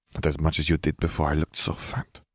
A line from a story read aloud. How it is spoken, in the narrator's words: she muttered